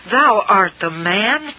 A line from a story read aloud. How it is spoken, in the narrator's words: Nathan exclaimed